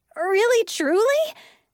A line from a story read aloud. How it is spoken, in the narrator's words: I squealed